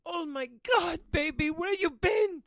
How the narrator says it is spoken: Beatrice wailed out

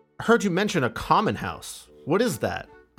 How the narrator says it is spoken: asked

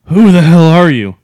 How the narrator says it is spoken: I shouted, panicked

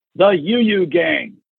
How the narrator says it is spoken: announced in a thunderous voice, battle cry

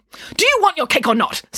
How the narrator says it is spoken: snapped Nanny Piggins

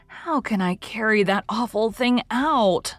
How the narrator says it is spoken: moaned Anne with a shudder

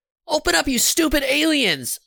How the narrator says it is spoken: she screamed

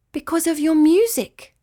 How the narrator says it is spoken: cried Nephila

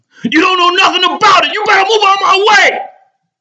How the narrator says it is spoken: Rogan is still yelling

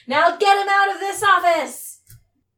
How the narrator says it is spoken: in squirrel, I'm going to yell

